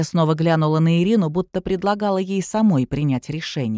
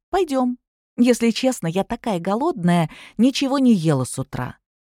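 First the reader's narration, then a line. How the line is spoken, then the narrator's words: Cheerful. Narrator (Russian): Ирина неожиданно для себя произнесла весело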